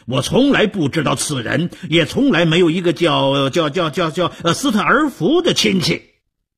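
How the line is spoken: Angry loud shout. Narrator (Chinese): 德米福气冲冲地高声地大喊

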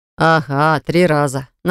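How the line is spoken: Mocking. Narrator (Russian): насмешливо ответил Богдан

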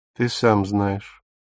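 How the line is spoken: Cold. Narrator (Russian): холодно сказала Дагмар

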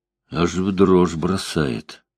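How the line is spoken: Mumbling. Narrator (Russian): пробормотал Бобби

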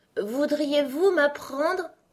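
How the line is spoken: Timid. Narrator (French): commença-t-elle en regardant timidement la reine rouge

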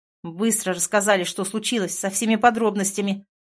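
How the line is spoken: Sharp. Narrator (Russian): резко сказал он

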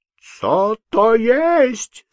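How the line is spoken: Shrieking man. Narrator (Russian): завизжал поляк

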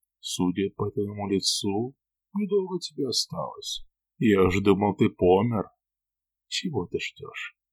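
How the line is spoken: Coughing, dying mumble. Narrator (Russian): Покашливая, как умирающий, я пробормотал

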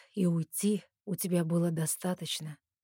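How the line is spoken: Soft, insinuating. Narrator (Russian): тихо и вкрадчиво говорит Эрик

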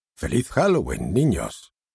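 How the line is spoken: Grandparents' joyful exclamation. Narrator (Spanish): Y los abuelos, al verlos correr, exclamaron alegres

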